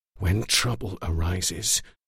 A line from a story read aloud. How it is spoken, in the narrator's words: Aldo whispered